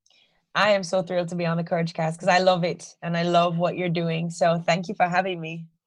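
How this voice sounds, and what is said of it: Strong Jamaican accent. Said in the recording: “your Jamaican accent has returned with a vengeance”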